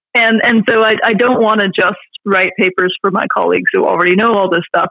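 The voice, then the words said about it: Excited, animated speaking voice. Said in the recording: “I get excited talking about these subjects. As I'm sure you can tell from my voice”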